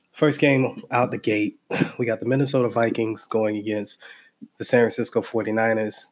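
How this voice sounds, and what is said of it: Stuffy, congested voice. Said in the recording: “came under the weather. As you can tell, my voice is still a little stuffy”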